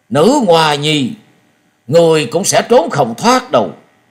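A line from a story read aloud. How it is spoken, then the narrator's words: Angry roar. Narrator (Vietnamese): Gió Đang Cuồng Đạo nổi giận gầm lên một tiếng và nói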